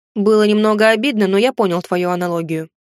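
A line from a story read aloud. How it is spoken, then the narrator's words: Snorting. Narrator (Russian): хмыкнул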